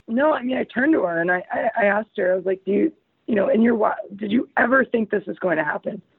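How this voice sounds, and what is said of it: Hoarse, fading voice. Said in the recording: “Sorry, I'm losing my voice again... I was yelling a lot over the weekend.”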